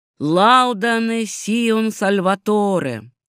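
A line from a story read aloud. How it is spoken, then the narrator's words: Loud group singing. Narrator (Russian): громко пели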